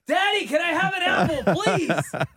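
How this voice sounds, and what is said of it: Loud yelling child's voice. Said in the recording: “why are you yelling?”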